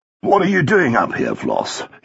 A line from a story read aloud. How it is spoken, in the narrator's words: he said